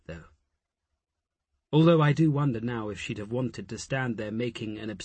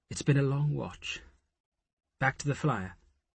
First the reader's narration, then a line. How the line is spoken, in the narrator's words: Asher said gently